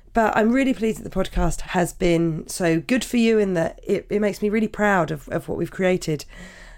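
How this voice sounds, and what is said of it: Croaky, hoarse voice. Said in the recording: “I really want to apologise for how croaky my voice is ... I'm sorry if you're thinking this is a horrible thing to listen to”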